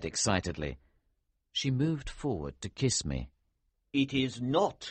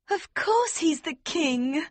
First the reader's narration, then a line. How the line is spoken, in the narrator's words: Princess Flavia cried